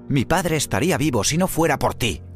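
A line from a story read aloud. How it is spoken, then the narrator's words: Shouted. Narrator (Spanish): gritó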